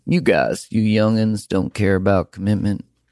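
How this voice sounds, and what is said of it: Put-on Southern US accent. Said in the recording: “I don't know why that was an accent from the South”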